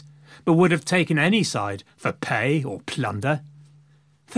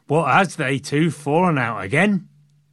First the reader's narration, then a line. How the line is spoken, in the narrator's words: in a Yorkshire accent